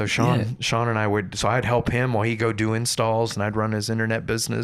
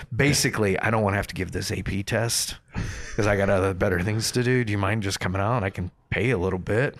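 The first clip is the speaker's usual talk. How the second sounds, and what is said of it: Dry imitation of another person's voice. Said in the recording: “a pretty good Michael impersonation ... Just this dry, just amazing Michael delivery”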